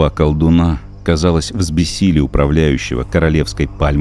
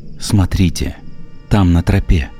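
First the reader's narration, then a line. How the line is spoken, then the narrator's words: Whispering. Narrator (Russian): зашептал он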